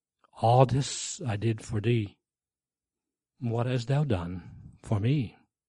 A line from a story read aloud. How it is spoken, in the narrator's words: him who whispered in his heart